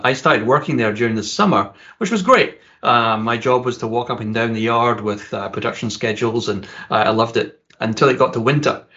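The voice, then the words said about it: Scottish accent. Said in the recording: “you can probably tell from my accent that I'm originally from Scotland”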